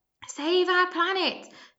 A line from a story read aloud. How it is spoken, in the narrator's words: the campaigners shouted back at him, one or two of the shoppers joining in